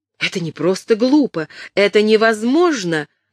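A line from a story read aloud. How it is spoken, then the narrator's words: Exclaimed. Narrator (Russian): воскликнула Кэтрин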